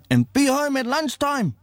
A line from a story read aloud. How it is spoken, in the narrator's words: she yells